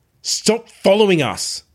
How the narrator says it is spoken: I barked into her face

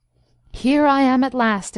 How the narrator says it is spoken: exclaimed the professor, somewhat wearily

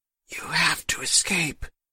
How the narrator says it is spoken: Mama whispered, barely able to talk

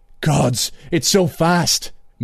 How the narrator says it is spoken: Moonglum gasped

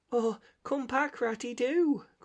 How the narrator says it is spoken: cried the Mole

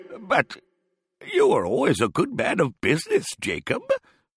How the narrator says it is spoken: faltered Scrooge, who now began to apply this to himself

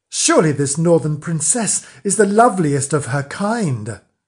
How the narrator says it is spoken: One of the king's knights, who had escorted the new queen, cried out in admiration

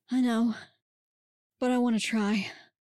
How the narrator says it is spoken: Lacey moaned

